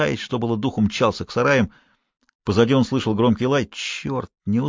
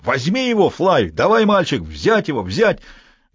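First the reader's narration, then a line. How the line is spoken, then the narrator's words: Man yelling. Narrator (Russian): Человек с тачкой заорал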